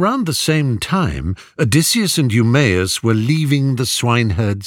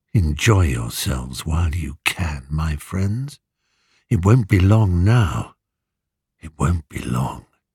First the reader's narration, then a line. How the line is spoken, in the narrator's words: in a lower voice, he hissed down